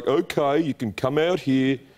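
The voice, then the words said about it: Imitated Birmingham accent. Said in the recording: “that's actually a really good Birmingham accent ... Birmingham accent is the worst accent in the world”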